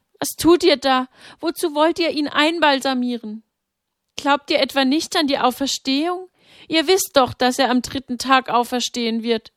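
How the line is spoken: Desperate crying out. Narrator (German): Sie klammerte sich an ihrem Sohn fest und rief

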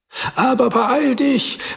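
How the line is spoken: Wife calling after. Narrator (German): rief seine Frau ihm hinterher

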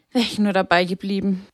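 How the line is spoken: Sighing. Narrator (German): seufzte sie

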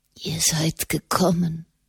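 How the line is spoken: Whispered. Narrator (German): flüsterte er

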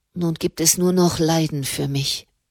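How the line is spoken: Murmured. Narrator (German): murmelte sie

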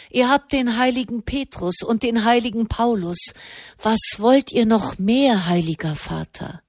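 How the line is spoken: Sighing again. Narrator (German): Wieder seufzte er

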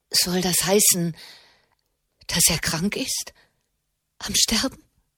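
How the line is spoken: Trembling voice question. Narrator (German): fragte Alessia mit zitternder Stimme

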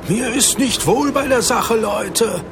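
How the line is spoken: Shouted against the wind. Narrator (German): rief Matthäus gegen den Wind an, der schnell stärker geworden war

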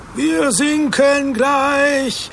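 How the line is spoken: Screaming. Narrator (German): schrie Matthäus

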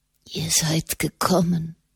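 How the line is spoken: Whisper. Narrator (German): flüsterte

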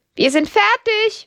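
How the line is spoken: Call. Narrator (German): ruft Lydia

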